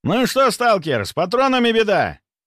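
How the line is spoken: Mercenary's shout. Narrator (Russian): прокричал наемник

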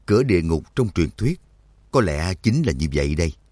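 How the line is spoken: Muttering. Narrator (Vietnamese): Trắc Mộc Cường Ba lẩm bẩm

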